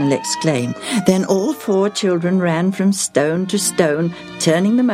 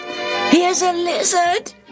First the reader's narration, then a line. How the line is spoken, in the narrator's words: Daniel shouted